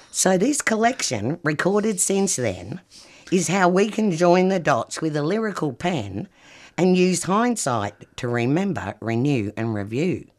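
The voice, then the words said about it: English accent, not Australian. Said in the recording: “You weren't born here, were you, with that accent? ... I was born in England. ... Yorkshire”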